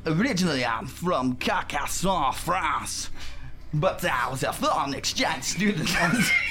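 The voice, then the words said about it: Put-on accent, hard to understand. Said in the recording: “what's going on with that accent? ... I can't understand a word you're saying.”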